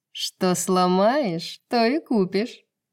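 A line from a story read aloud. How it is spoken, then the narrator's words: Cooing harpy. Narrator (Russian): проворковала гарпия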